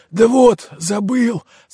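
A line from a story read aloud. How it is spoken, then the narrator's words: Rueful sigh, gnome. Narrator (Russian): сокрушенно вздохнул гном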